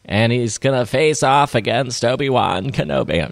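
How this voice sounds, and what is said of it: Kathleen Kennedy impression. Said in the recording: “my Kathleen Kennedy impression.”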